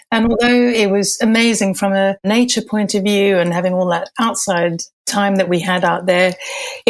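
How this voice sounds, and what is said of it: Slight Malaysian and Zimbabwean accent. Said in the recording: “I've got a slight accent. That's because I spent the first 20 years of my life in Malaysia and the Far East and then in Zimbabwe.”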